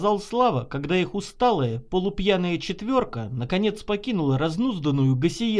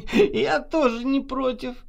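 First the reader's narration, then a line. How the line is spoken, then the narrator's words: Drunken laugh. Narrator (Russian): нетрезво засмеялась Наташа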